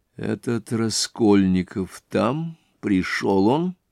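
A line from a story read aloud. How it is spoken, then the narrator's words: Whispered question. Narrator (Russian): спросил он его шепотом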